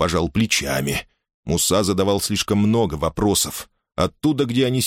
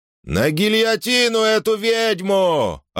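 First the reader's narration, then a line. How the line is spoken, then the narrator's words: Yelling man. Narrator (Russian): орал какой-то республиканец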